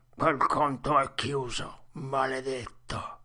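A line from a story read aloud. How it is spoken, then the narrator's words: Mumbled grumble. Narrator (Italian): Il mezzo sangue bofonchiò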